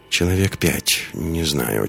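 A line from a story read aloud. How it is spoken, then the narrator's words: Quiet female answer. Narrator (Russian): тихо ответила Лиска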